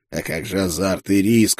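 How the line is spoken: Hoarse rasp. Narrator (Russian): прохрипел я

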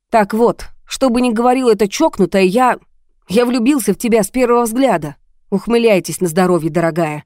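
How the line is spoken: Sharp retort. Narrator (Russian): резко бросил он Жанне

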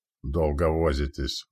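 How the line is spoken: Muttering. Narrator (Russian): буркнул Сигвард

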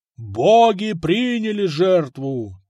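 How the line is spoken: Solemn shout. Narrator (Russian): торжественно крикнул герцог

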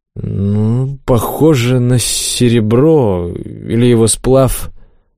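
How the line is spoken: Uncertain. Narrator (Russian): неуверенно произнес

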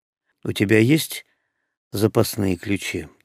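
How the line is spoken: Heavy sigh, question. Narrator (Russian): тяжело вздохнув, спросил я

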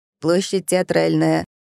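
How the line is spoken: Driver's hoarse announcement. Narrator (Russian): объявил хриплый голос водителя

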